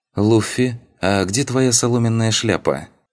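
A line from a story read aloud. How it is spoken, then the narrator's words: Pleasant voice, young woman. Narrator (Russian): Приятным голосом поинтересовалась девушка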